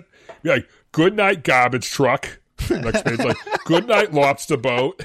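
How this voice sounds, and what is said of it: Thick put-on Boston accent. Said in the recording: “read this book in a wicked thick Boston accent”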